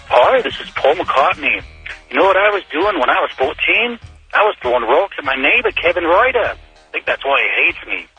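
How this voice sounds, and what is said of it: Bad celebrity impression, sounds Australian. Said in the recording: “Terrible, terrible, terrible celebrity impression. ... I think that was Crocodile Dundee, actually. ... I don't think that was very good.”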